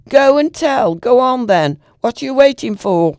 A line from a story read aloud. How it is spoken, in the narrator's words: From the gate the girl shouted